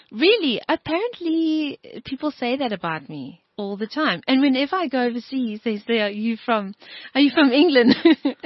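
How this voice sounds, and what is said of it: Strong British-sounding accent. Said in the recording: “Such a strong British accent?”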